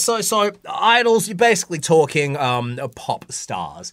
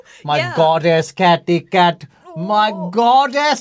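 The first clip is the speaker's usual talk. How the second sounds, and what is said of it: Put-on unidentified accent. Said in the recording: “I don't know where this accent came from.”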